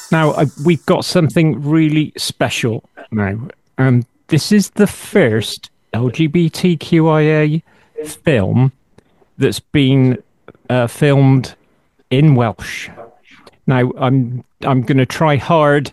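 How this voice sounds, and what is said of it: Bristolian English accent. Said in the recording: “my Bristolian accent”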